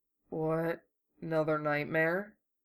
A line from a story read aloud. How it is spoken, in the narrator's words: Hiro mumbled into his pillow